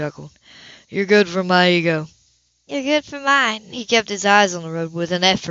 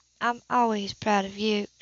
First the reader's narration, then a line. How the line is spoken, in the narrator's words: she replied softly